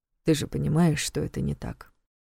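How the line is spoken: Calm. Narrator (Russian): спокойно продолжил Долгов

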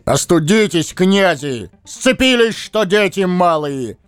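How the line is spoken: Furious bellow. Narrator (Russian): гаркнул доведенный до белого коленя Муромец

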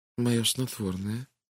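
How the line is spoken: Barely audible whisper. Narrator (Russian): едва слышно прошептала Кристина

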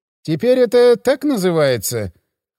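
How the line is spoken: Deputy patrol chief, wry snort. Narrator (Russian): хмыкнул заместитель начальника патруля

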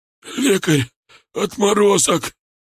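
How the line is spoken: Hoarse wheeze. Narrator (Russian): прохрипел шар

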